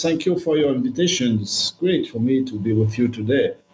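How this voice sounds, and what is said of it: Non-native English accent. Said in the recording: “my English is not very good. And as you say, I have a bad accent”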